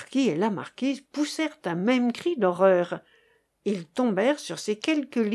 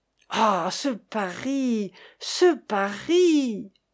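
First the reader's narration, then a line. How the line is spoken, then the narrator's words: Exclaiming. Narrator (French): s'écria Chéri Bibi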